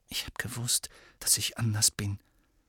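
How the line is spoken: Whispering. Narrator (German): flüsterte er seinen eigenen bebenden Fingern zu

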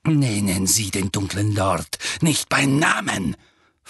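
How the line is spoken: Hissed. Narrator (German): fauchte Snape

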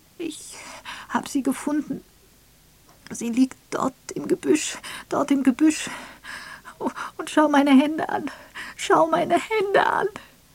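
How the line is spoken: Sobbing speech. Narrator (German): Unter fortwährendem Schluchzen brachte sie hervor

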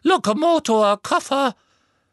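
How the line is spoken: Squeak. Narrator (German): Er quiekte

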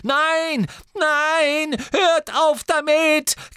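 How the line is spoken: Shriek echoing off tiles. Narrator (German): kreischte die maulende Myrte und ihre Stimme hallte laut durch den gefliesten Raum

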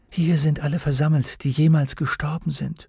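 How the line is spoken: Whisper. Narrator (German): flüsterte Lyra

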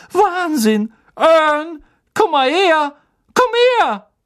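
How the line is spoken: Excited shouting. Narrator (German): schrie Stan

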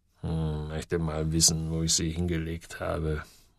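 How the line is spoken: Murmuring. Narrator (German): murmelte er

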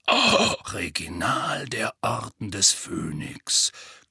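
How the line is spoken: Growling. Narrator (German): knurrte Moody

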